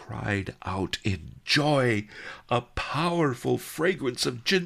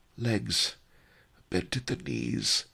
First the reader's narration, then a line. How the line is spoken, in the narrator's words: he sighed